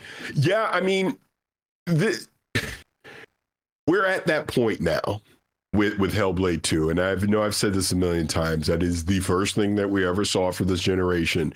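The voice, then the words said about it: Hoarse, strained voice. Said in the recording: “I'm like literally coughing and losing my voice again”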